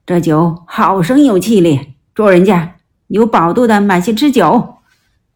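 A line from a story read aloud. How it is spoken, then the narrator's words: Calling out. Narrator (Chinese): 武松叫道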